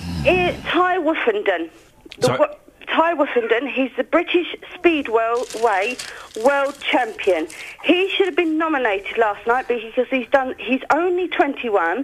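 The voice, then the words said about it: Rough, croaky sick-sounding voice. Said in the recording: “I sound like a stinking goat.”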